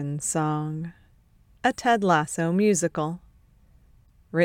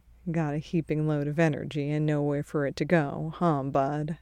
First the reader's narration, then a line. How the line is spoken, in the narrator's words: murmurs